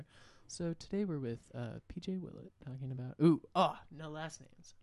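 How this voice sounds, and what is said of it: NPR-style radio host voice. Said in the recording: “I got into a real NPR voice there.”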